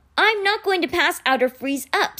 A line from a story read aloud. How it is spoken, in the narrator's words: Sticky snapped indignantly